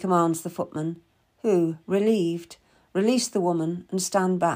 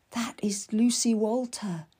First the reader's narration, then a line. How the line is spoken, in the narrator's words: Anne whispers to me